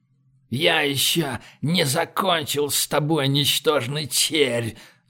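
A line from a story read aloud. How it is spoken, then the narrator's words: Growl. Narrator (Russian): зарычал Ргорд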